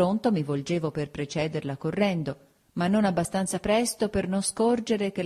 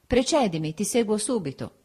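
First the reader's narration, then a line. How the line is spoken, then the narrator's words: Firm steady voice. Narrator (Italian): Mi diceva con la sua voce soda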